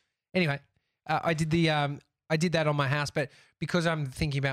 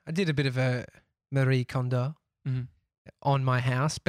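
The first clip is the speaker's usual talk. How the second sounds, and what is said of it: Put-on Spanish accent. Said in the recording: “Spanish. It's less racist than being doing a Japanese accent. I'll go Spanish.”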